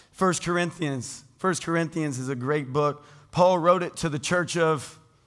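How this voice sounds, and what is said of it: Hoarse, failing voice. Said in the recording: “You guys distracted by my voice? ... I'm losing my voice.”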